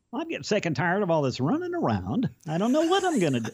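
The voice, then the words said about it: Whiny high Barney Fife impression. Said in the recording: “Barney Fife ... he's a whiny guy ... when you do a voice ... I can't get up to the high note now”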